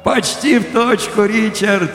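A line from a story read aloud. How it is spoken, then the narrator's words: Cheerful laugh. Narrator (Russian): весело засмеялся я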